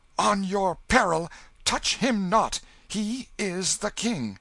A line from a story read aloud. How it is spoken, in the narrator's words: the mock king stamped his foot and cried out